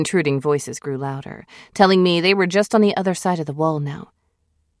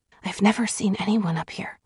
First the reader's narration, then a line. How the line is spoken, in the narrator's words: I whispered back